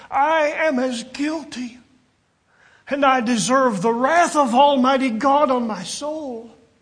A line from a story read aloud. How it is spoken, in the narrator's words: cried out, saying